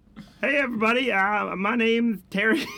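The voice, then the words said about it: Silly put-on character voice. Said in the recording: “This is the best voice. I've never heard you make sounds like... I've never heard you do a voice that wasn't an accent.”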